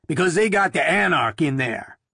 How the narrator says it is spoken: he said gruffly

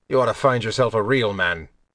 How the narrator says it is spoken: Brayan grunted and told Aline

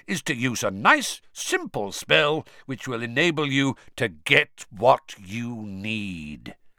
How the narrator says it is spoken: said Moody loudly, interrupting him

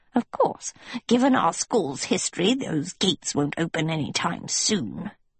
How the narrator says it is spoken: she muttered

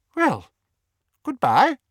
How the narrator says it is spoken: Hastily stowing her wet handkerchief into her pocket, she said

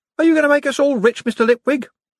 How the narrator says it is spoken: someone called out

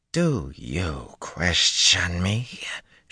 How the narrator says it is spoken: she snarled incredulously

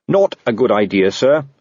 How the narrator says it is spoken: said Carrot firmly

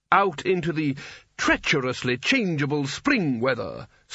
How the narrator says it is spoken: snarled Spelter

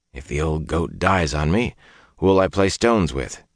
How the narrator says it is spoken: he told himself roughly

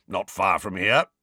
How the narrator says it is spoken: grunted Moody

